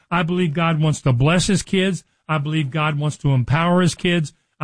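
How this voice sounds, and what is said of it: Excited, energetic speaking. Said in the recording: “hear the excitement in my voice”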